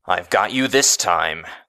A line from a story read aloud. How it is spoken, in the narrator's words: he snarled